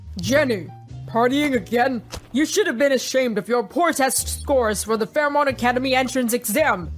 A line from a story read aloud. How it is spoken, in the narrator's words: James grumbled